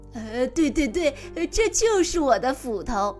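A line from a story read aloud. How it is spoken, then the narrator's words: Gleeful greedy man. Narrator (Chinese): 贪心的樵夫乐得眉开眼笑，说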